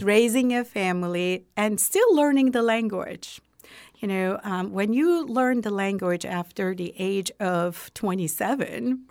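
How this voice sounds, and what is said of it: Non-native English accent. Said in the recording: “my accent will never, ever change once you learn the language after certain ages”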